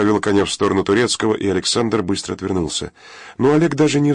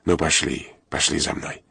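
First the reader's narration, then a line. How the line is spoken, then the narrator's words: Gentle, affectionate. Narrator (Russian): Олег ласково сказал коню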